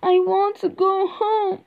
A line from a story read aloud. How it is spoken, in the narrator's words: Dorothy cries